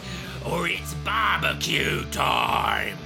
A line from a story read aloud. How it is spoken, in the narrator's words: He growled